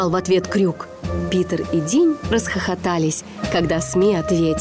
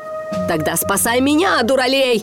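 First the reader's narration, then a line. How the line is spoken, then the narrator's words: Shouting. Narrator (Russian): прокричал Крюк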